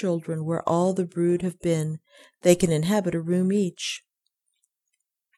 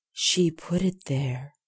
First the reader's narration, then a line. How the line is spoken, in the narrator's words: whispered Cecily